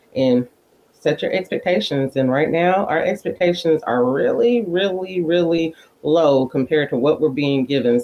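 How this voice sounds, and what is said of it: Subtle Arkansas Southern accent. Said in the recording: “I love your Arkansas accent... Arkansas is such a weird spot. It kind of sounds like East Texas, but it also kind of sounds like Birmingham, like south, but it's like a very subtle blending of them. I like your Arkansan.”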